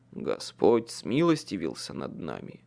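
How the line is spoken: Sighing. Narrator (Russian): вздохнул Майкл

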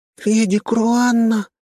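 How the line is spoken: Stunned little girl's squeak. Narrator (Russian): потрясенно пискнула девчушка

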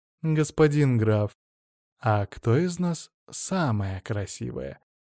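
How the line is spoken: Purring question. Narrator (Russian): Чуть ли не мурлыкая, спросила Василиса

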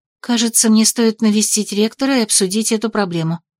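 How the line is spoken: Disappointed mutter. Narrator (Russian): пробормотала я и разочарованно вздохнула

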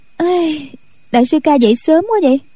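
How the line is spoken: Yawning, cheerful laugh. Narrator (Vietnamese): cô ngáp dài một cái rồi cười nói

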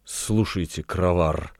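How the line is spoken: Temptress whispering. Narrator (Russian): шепнула искусительница

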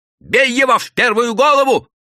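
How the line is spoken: Yelled. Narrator (Russian): заорал заросший мужик

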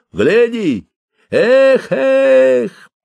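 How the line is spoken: Shout. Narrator (Russian): Он прищелкнул языком и крикнул

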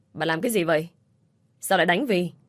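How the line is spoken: Loud voice. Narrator (Vietnamese): ai đó lớn tiếng rồi nói

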